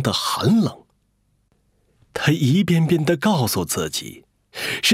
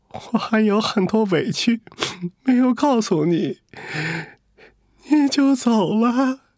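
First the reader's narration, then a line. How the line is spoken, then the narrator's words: Tearful, aggrieved complaint. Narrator (Chinese): 他心里涌上了很多委屈…不由得哭诉了起来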